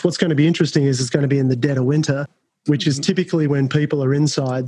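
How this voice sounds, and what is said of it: Australian accent. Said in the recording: “I'm from Australia, as you can tell by my voice”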